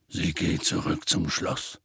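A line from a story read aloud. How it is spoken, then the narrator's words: Quiet voice. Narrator (German): sagte er mit leiser Stimme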